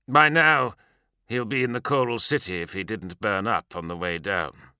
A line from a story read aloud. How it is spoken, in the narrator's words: Sendek said grimly